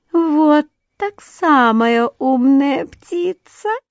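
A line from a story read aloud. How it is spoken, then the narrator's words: Thin giggling little voice. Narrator (Russian): послышалось хихиканье, и тоненький голосок сказал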